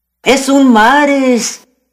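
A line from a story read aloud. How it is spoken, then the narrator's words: Cowboys shouting. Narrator (Spanish): gritaban los vaqueros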